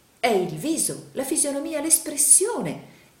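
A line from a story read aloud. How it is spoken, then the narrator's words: Exclaiming. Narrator (Italian): esclamò il signor Pike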